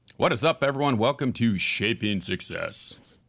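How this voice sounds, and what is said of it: Announcer-style radio voice. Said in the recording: “sounds like my radio voice there. I was trying to use that.”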